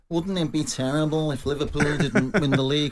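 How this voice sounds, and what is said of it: Mock whiny Manchester accent. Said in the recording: “is that your Manchester accent? ... Their horrible Manc whine.”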